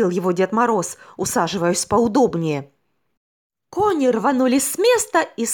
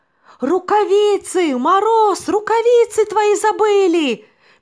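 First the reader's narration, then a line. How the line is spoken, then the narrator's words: Shouting snowman. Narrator (Russian): закричал снеговик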